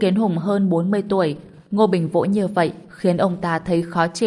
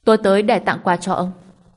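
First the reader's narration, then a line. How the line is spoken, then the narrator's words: Cold. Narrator (Vietnamese): Ngô Bình lạnh lùng nói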